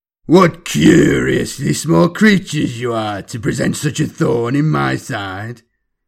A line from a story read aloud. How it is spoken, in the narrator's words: roared and rumbled through the air, thick with dark amusement